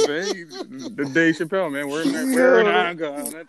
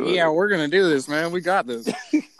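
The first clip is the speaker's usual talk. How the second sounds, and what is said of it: Stereotyped white-sounding voice. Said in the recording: “why'd you give me the only white voice just now”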